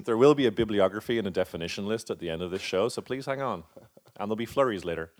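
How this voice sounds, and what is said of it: North American accent. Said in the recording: “let's run it all through in a North American accent.”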